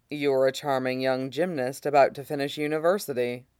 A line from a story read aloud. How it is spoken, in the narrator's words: Mustang says dryly